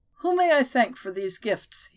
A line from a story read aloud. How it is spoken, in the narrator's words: he asked, his voice more assured, and no longer with the creak of disuse